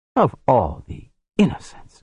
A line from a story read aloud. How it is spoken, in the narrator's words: Gift said, hissing the word